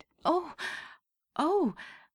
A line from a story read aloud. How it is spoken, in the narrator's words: Della leaped up like a singed cat and cried